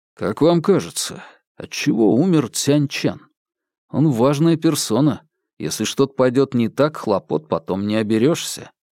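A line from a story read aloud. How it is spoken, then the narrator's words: Quiet question. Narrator (Russian): Линь Фэнчун тихо спросил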